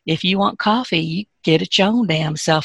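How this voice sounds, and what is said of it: Southern US accent. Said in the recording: “you have to say that in a Southern accent.”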